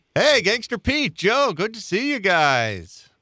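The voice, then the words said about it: Exaggerated radio announcer voice. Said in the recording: “talking in a radio voice”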